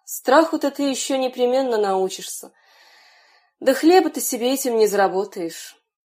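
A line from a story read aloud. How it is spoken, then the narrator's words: Father's sighing reply. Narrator (Russian): Отец вздохнул и отвечал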